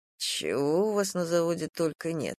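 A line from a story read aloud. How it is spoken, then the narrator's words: Muttering. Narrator (Russian): пробормотал Полуянов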